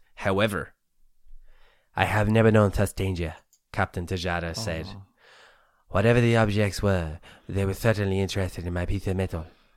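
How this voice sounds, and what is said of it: Put-on Spanish accent. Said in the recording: “We're just doing the Spanish accent.”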